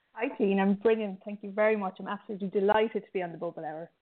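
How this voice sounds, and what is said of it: Thick Midlands Irish accent. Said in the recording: “I love how you say Bubble Hour. It's so great. ... my thick Midlands Irish accent ... It's so beautiful”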